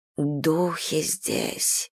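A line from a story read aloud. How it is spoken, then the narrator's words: Whisper. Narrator (Russian): прошептала мисс Хайнс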